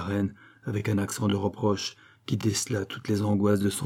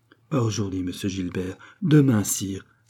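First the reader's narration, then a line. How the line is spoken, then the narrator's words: Exclaimed. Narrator (French): s'écria-t-elle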